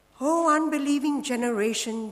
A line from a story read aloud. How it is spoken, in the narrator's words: Jesus replied